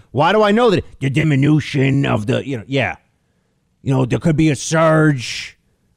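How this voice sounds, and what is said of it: Imitates another person's voice. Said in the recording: “my impersonation of him”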